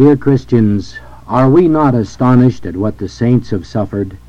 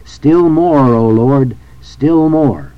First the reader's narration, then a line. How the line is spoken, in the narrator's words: when tribulation and suffering beset him, he cried